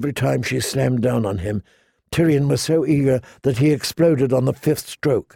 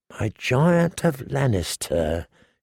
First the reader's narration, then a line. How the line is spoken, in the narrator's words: she murmured